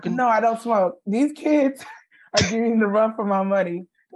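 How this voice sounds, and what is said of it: Hoarse, nearly lost voice. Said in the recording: “my voice is gone because school's back in session ... That's why my voice is like this.”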